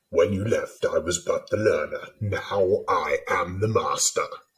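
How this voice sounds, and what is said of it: Darth Vader impression through a cup. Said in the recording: “everyone can do a Darth Vader impression. Well, probably anyone whose voice is broken can do a Darth Vader impression if they have a cup.”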